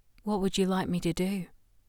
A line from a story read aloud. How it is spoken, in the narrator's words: She murmured